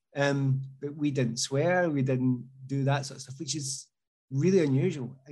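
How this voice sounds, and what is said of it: Strong Glasgow accent. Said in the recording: “Glasgow accent ... although I've got a strong accent”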